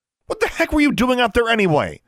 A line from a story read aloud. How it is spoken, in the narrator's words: Brian shouted